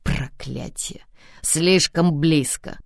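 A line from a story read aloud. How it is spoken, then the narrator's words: Muttering through teeth. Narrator (Russian): Сквозь зубы бормочет друг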